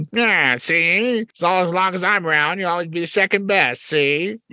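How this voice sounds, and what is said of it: Edward G. Robinson impression. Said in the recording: “that frog looks just like Edward G. Robinson ... Yeah, that's how he talks ... the frog is a spoof of ... Edward G. Robinson ... impersonation of Edward G. Robinson”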